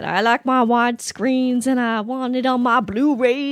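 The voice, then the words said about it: Put-on Southern American accent. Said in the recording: “You automatically go toward a Southern uneducated accent”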